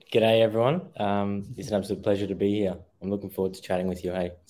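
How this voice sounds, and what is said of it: Australian accent. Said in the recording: “that's where that accent's coming from right there. That's a little bit of Australian coming for you”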